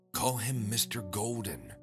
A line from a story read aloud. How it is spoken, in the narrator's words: she whispered to me